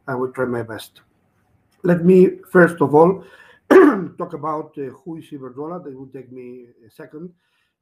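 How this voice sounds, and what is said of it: Rough voice with a cough. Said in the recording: “Sorry for my voice, ... I'm in a little bit of a cough with the cold weather”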